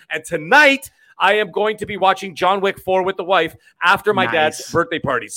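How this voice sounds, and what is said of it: Breathless, out-of-breath speech. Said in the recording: “I'm totally out of breath.”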